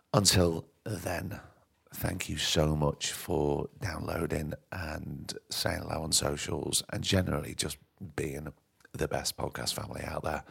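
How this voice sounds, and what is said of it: Croaky, hoarse voice. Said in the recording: “My voice is still a bit croaky from the COVID.”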